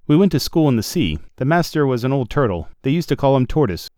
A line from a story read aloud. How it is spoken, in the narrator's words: the Mock Turtle went on at last, more calmly but still sobbing a little now and then